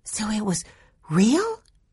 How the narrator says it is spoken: Violet gasped

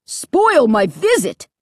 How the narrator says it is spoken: Dad shrieked, his face growing even redder

